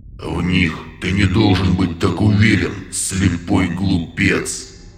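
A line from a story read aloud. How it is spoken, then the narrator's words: Wall-shaking growl. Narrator (Russian): Рыкнул на него Михаил, от голоса которого стены подземелья содрогнулись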